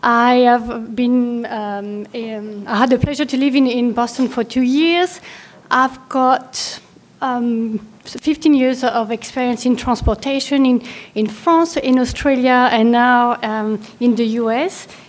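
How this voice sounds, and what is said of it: French-accented English. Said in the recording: “here's another set of accents... I'm French”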